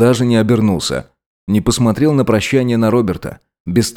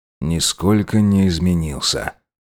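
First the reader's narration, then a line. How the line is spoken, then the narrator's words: Ermine whispering. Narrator (Russian): прошептал горностай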